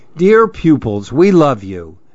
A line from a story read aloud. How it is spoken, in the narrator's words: the animals exclaim